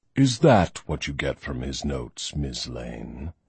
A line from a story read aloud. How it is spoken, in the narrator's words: He purred